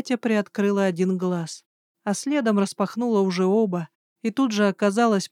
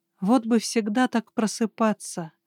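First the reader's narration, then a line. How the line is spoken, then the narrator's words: Relaxed purring. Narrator (Russian): Промурлыкала я расслабленно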